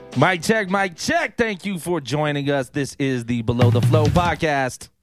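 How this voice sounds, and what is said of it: Yelling, loud energetic delivery. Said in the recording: “Why are you yelling ... I'm trying to inject some energy”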